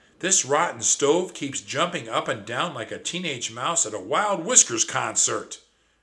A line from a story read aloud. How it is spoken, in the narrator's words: shrieked my cousin